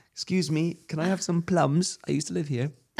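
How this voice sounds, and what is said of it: Poor British Tiny Tim accent. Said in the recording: “What's with the accent? ... poor British accent, like Tiny Tim accent”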